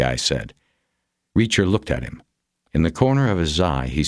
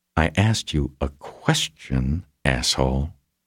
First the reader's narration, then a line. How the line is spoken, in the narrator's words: the leader said again, quietly